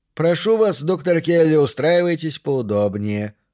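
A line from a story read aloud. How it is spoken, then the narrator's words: Honeyed, unctuous tone. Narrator (Russian): произнес он медоточивым тоном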